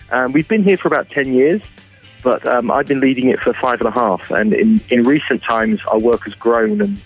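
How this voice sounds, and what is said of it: English accent. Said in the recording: “Despite my accent, ... originally from England”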